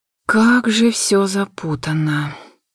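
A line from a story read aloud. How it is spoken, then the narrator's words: Sighing. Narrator (Russian): вздохнула я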